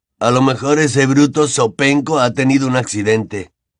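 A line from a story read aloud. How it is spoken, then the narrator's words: Quiet private suggestion. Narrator (Spanish): sugirió en voz baja para que solamente pudiera oírlo Harry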